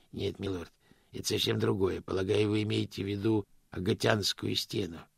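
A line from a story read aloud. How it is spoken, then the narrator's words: Gentle correction. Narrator (Russian): мягко поправил господин Кривс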